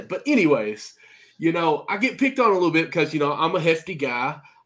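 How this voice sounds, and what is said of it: American country accent. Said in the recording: “I've got this country accent.”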